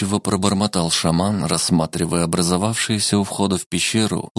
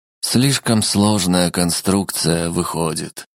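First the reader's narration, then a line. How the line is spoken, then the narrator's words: Sighing. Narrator (Russian): вздохнул Семен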